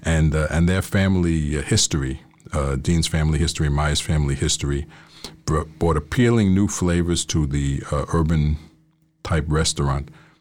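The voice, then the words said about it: New York Queens accent. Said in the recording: “we have totally different accents. I am from Queens”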